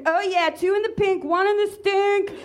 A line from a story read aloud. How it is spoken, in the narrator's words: Elizabeth screamed